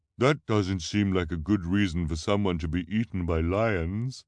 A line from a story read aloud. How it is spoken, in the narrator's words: Violet said carefully, in her disguised voice